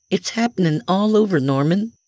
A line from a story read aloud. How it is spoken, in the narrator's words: she exclaimed in a nervous tone